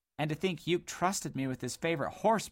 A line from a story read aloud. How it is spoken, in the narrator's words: moaned Dodd